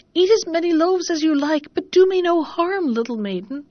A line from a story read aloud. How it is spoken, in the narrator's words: cried the oven